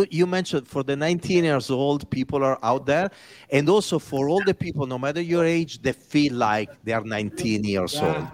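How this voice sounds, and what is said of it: Heavy Italian accent. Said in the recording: “With a heavy Italian accent.”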